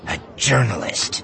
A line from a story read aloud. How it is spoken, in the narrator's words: she spat, infusing the single word with the same disgust and loathing